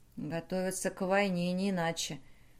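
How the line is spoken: Muttered. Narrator (Russian): пробормотал Сик

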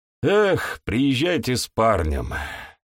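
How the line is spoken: Sighed. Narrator (Russian): вздохнул Виктор Сергеевич

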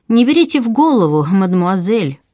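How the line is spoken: Carefree laughing. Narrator (Russian): беззаботно рассмеяться и сказать

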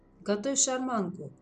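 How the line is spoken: Flat colorless voice. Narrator (Russian): бесцветным голосом сказал Тимур

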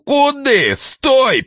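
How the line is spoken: Sudden yell. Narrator (Russian): потом вдруг завопил

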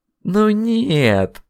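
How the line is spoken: Groaning. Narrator (Russian): застонал я

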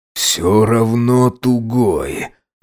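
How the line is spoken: Breathy exhale. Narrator (Russian): выдохнул в его волосы Макс

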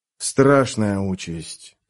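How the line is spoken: Traveler muttering. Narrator (Russian): пробормотал путник

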